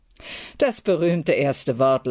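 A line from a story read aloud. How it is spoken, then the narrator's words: Laughing. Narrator (German): lachte Brandt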